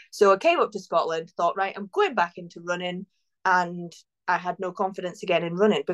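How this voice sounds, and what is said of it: English accent. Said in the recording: “as you can tell from my accent, kind of, I am originally English”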